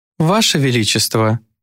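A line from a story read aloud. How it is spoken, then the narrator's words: Purring young woman. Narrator (Russian): промурлыкала одна из девиц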